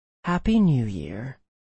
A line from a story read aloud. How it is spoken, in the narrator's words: I whispered into the darkness